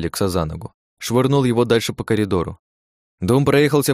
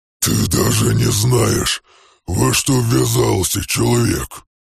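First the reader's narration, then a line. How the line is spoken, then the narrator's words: Growled. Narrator (Russian): прорычал он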